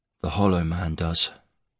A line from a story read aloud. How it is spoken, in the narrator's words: he said, his voice faint